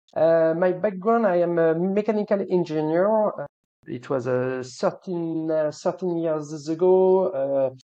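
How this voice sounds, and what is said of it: French accent. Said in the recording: “I am uh, French with a French accent.”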